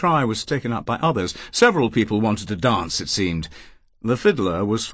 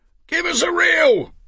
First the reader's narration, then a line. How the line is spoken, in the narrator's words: shouted